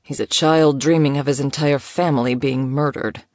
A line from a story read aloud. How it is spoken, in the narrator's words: Elijah supplied dryly